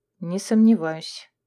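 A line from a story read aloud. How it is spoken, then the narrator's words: Muttered. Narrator (Russian): пробормотала я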